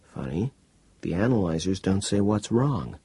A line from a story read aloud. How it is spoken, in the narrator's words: Chounds muttered